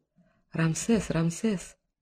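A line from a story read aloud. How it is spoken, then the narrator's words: Whisper from above. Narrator (Russian): донесся шепот сверху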